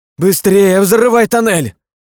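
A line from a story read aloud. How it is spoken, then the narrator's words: Scream. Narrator (Russian): закричала Кристина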